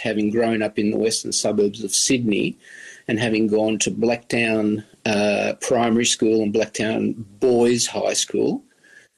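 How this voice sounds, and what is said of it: Broad Australian accent. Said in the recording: “I have this quite broad Australian accent”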